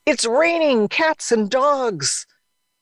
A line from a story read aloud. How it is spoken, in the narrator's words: Mom yelled out